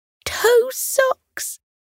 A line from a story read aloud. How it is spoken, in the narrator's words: Potato squealed